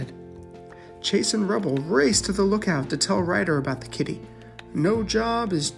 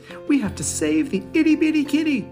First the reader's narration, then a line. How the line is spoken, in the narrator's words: exclaimed Rubble